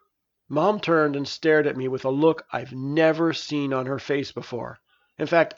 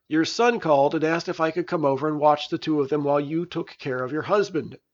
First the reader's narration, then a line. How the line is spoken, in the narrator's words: answered Dr